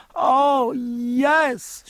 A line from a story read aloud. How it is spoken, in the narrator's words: cried despairingly, and her tears ran fast again